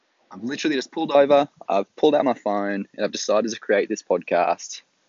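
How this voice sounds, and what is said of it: Australian accent. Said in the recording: “If you can't quite tell by my accent, I'm from Australia.”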